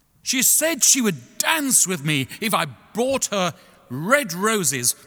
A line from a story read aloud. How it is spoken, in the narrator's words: cried the young student